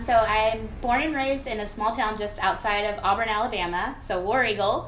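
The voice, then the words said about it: Southern US (Alabama) accent. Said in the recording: “maybe we'll see if we can get that accent to kind of come through on there. You're not originally from our area.”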